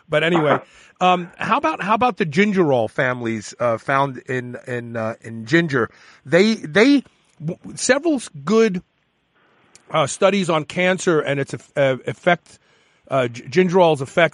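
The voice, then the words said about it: Brooklyn accent. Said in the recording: “I got a Brooklyn accent. I'm stuck with it.”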